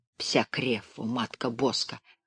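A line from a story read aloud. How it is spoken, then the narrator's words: Muttered. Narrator (Russian): пробормотал пан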